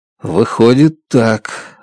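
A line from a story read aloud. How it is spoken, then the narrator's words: Confused muttering. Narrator (Russian): растерянно бормочу я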